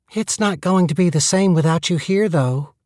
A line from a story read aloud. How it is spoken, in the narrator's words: the girl said wistfully